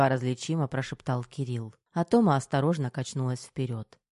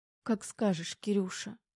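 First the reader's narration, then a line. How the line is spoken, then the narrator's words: Sobbing, smiling through tears. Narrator (Russian): всхлипнула Тома, улыбаясь сквозь слезы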